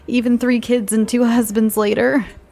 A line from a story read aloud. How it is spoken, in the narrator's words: laughed